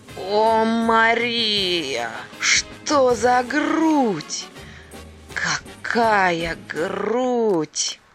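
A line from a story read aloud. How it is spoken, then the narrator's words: Sudden loud exclamation. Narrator (Russian): воскликнул громким голосом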